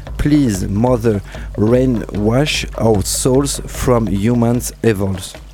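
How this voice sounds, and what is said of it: English accent. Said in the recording (French): “avec mon super accent anglais ... pour mon accent anglais”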